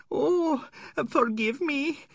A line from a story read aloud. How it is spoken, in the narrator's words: he whined